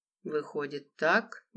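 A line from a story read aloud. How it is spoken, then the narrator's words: Uncertain reply. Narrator (Russian): неуверенно ответил Анатолий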